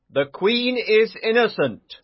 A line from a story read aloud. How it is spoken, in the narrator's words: Sir Lancelot replied